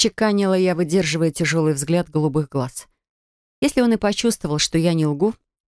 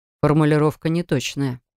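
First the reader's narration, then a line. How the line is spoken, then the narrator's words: Man's scoffing grunt. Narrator (Russian): хмыкнул мужчина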